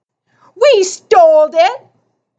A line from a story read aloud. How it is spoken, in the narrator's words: Screecher blurted